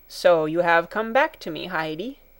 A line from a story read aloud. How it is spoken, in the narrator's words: he said